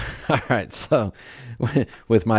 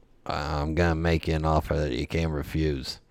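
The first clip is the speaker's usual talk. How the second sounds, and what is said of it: Deliberately bad movie-character impression. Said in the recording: “my very bad impression”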